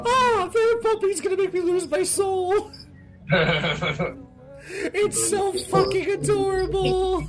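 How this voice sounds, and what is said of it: Very high-pitched excited voice. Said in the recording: “My voice has come up 15 octaves”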